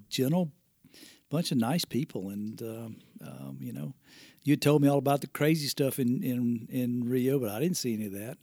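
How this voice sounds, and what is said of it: Fast, mumbled Southern US accent. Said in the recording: “my dad's accent is probably going to be a little bit more difficult for people to understand ... the southern accent ... you do speak fast and kind of mumble sometimes”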